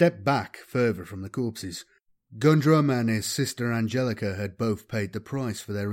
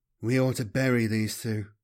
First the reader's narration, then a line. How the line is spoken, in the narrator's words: Kaladin mumbled